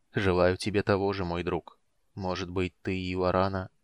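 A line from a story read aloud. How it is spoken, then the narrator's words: Quiet voice of wind. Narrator (Russian): речной ветер тихо произнес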